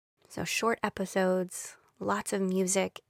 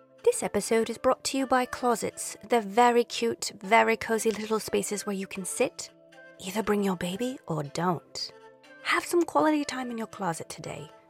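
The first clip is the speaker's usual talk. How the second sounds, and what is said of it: Amateur put-on English accent. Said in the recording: “some silly commercials from me with an English accent that I'm working on, but trust me, I'm going to get really good”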